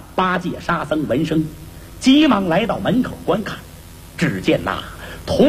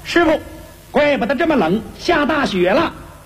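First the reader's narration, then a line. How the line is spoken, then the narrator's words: Hurried call. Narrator (Chinese): 悟空忙喊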